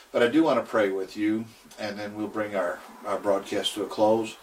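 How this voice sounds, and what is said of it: Strained, worn-out voice. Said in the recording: “my voice is kind of given away”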